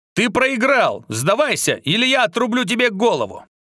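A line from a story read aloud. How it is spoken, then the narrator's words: Barking snap. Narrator (Russian): Рявкнул Артём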